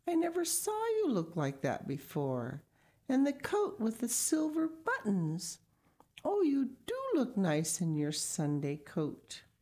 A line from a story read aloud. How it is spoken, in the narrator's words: exclaimed